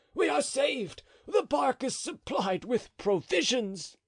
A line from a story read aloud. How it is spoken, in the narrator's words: he cried